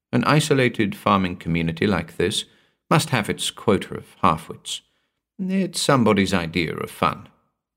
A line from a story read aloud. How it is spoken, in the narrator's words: she said weakly